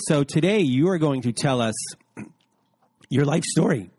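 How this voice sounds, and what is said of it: Voice cracks. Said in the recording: “My voice cracked there.”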